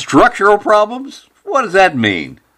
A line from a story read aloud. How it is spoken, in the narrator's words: Cobb started chuckling and said